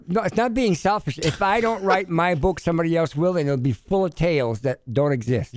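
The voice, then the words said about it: Speaks with a noticeable accent. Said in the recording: “It's just you talk a little funny. ... I have an accent.”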